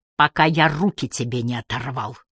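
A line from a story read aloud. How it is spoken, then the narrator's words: Loud whisper. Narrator (Russian): Девин прошептал, но так, что все на кухне слышали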